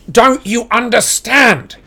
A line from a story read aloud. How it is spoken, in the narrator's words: shouted Harry